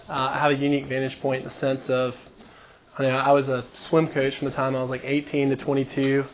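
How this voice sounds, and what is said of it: Hoarse, partly lost voice. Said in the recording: “A little bit hoarse Monday night. Lost my voice a little bit.”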